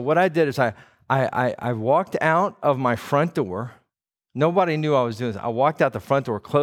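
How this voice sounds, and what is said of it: Usual voice. Nothing is said of it.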